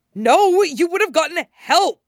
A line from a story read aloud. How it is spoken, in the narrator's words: Scott shouts